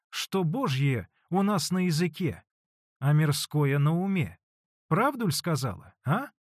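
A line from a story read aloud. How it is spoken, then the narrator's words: Added, laughing merrily. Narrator (Russian): прибавила она и весело захохотала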